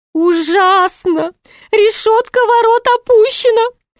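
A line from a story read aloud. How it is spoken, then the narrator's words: Groaned. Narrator (Russian): простонал Шут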